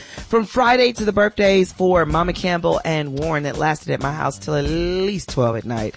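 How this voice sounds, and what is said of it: Hoarse voice. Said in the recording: “You can hear in this hoarse voice of mine that I've been talking all weekend.”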